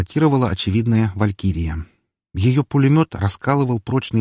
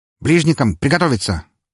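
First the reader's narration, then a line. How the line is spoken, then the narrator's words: Clipped commanding voice. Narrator (Russian): отдал команду отрывистым голосом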